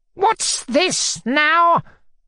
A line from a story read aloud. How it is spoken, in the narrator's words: cried out at last in a frenzy